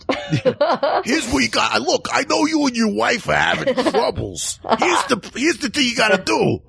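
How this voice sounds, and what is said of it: New York cab driver character voice. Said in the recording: “He's a cab driver who gives advice, but the advice he gives always ends in New York. ... Being the best accent in the world.”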